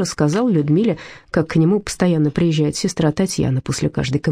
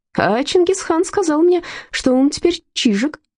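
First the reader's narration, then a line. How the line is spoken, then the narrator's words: Cheerful. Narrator (Russian): весело сообщил Мышкин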